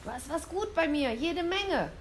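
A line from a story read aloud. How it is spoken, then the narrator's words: Calling downward. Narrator (German): rief sie nach unten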